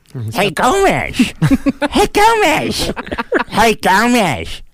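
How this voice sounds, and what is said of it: Uncle Fester impression. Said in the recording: “What about Fester? Can we go to Adam's family?”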